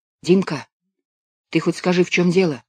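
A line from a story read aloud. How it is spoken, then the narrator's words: Whispered question. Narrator (Russian): спросил я шепотом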